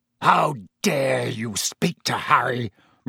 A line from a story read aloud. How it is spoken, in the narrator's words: roared Black